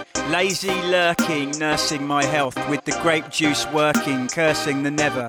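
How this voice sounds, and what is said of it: Thick London suburban English accent. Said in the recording (French): “accent vraiment anglais à couper au couteau, là, le gamin des banlieues londoniennes”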